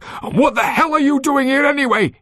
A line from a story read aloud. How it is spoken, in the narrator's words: he shouted back